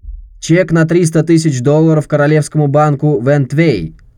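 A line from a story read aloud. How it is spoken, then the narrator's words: Loud croupier. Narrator (Russian): громко сказал крупье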